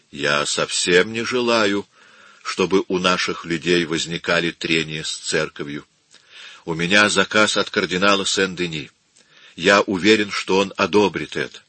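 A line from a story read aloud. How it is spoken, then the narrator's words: Quiet, thoughtful. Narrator (Russian): Задумавшись на минуту, Рабби тихо сказал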